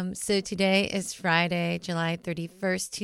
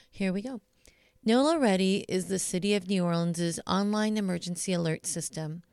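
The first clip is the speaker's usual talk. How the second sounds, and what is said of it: Neutral radio DJ announcer voice. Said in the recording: “put on my neutral DJ voice.”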